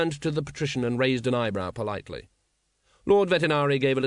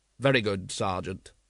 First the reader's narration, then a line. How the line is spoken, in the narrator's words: said Vimes coldly